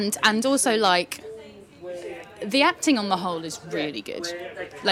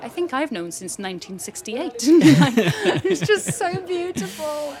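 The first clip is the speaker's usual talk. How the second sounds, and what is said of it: Put-on Welsh accent. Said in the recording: “Apologies for my Welsh accent.”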